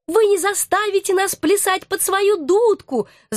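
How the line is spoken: Angry squeak. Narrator (Russian): злобно пискнула одна из крыс, самая крупная

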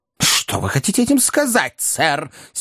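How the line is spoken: Angry question. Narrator (Russian): сердито спросил мистер Уинкль

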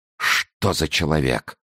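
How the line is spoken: Whisper. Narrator (Russian): прошептал король

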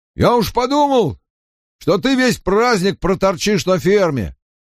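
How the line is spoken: Shouting over noise. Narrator (Russian): перекрывая гам, выкрикнул Перин Айбора

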